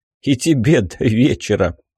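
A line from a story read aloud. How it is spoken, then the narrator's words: Puffing through laughter. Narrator (Russian): Пропыхтел я в ответ сквозь смех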